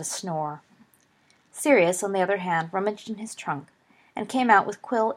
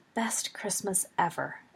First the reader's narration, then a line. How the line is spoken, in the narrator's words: Peter, mumbling